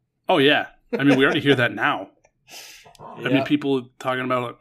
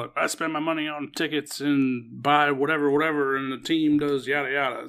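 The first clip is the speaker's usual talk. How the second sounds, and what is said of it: Put-on Southern accent. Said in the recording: “you just gave that Red Sox fan, like, a southern accent.”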